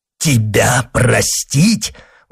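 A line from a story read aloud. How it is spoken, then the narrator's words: Exclaimed, false monk. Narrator (Russian): воскликнул мнимый монах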